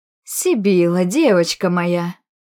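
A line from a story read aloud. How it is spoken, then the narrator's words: Joyful exclamation. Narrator (Russian): Радостно воскликнула ее светлость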